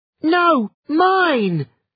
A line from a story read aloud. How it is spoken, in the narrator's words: shouted the other Liam